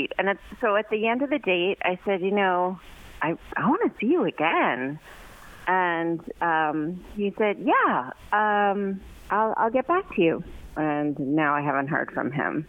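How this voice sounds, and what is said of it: New York accent. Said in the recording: “from New York ... Just to hear her talk ... my accent”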